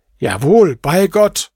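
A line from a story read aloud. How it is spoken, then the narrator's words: Exclaiming. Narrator (German): rief der Kalif aus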